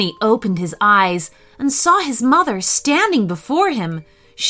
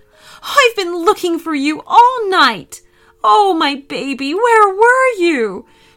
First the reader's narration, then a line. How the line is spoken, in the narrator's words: She sobbed